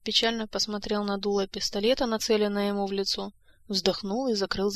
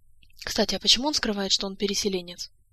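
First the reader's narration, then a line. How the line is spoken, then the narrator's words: Uncertain, forced out. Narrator (Russian): Элмар неуверенно выдавил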